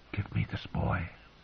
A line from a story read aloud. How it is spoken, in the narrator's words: she whispered